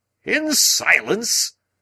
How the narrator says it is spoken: cried Lord John

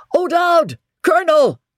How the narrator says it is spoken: shouted

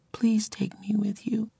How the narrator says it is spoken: she whispered

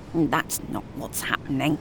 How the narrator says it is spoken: Eric mutters

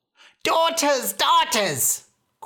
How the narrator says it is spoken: cried the mother

